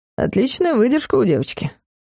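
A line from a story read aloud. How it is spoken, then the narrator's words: Purring. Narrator (Russian): промурлыкал Дарс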